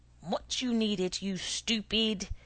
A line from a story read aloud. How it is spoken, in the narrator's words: thundered in unrestrained fury